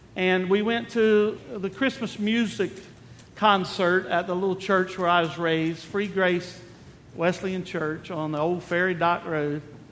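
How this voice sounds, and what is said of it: North Carolina island accent. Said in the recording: “That's why I talk funny. A little island accent.”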